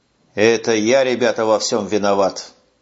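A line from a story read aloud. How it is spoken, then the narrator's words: Muffled, hollow voice. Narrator (Russian): глухо проговорил сержант Куницын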